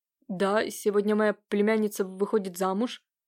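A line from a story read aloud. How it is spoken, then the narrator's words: Frightened. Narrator (Russian): сказал испуганно Нелидов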